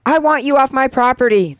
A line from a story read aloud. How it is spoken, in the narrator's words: the woman screams